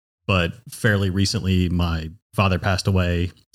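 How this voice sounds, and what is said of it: Choked-up, emotional voice. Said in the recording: “So I'm already getting choked up”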